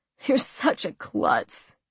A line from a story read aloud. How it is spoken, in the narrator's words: Noah chuckled